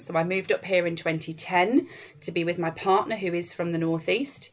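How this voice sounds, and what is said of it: Manchester English accent. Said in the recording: “I'm not from the Northeast, as you can probably tell from the accent... I moved here from Manchester”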